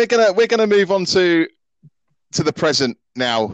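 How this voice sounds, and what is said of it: Usual voice. Nothing is said of it.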